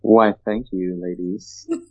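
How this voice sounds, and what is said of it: Put-on deep, suave voice. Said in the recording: “I got to put my deep voice on for this. ... Got that suave thing going on. ... Got to put the decibels in there. I got to put them in low decibels.”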